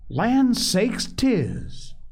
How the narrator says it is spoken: cried Mrs

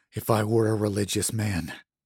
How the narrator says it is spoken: he murmured

